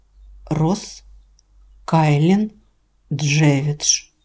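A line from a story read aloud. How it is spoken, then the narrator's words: Slow repetition. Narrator (Russian): медленно повторил он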